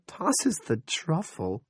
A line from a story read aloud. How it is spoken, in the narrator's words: Linda giggled in spite of her nerves